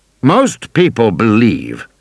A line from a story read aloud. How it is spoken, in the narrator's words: Hammond said stiffly